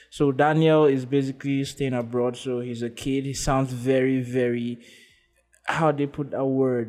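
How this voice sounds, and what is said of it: Nigerian English accent. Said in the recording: “my accent is changing from very Nigerian as it stand like this”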